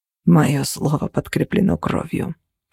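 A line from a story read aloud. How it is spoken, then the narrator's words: Hoarse wheeze. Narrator (Russian): прохрипел Костя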